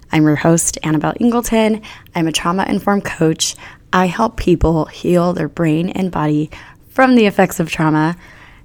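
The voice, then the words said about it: Voice not fully recovered. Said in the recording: “my voice is still not 100%... fully let my voice heal... when it goes back to normal”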